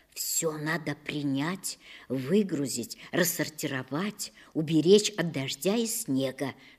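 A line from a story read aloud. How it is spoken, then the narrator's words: Whisper. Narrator (Russian): шептала мне мама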